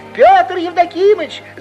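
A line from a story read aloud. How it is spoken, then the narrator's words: Young woman shouting. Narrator (Russian): закричала в это время колхозная весовщица Клава, молодая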